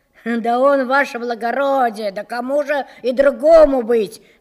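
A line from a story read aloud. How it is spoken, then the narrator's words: Loud, defensive, humble. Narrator (Russian): заговорил он громко, точно оправдываясь и униженно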